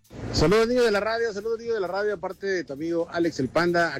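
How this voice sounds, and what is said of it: Radio announcer voice. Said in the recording (Spanish): “Ese panda sí tiene voz de locutor.”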